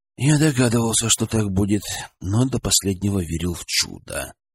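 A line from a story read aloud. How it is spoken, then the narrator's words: Sighing. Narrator (Russian): вздохнул Денис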